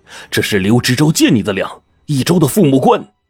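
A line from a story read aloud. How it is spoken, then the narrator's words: Stern, exasperated. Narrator (Chinese): 鲁师爷看不下去了，就厉声说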